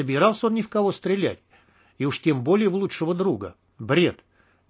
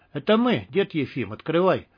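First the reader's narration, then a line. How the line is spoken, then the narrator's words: Calm. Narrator (Russian): спокойно сказал Виктор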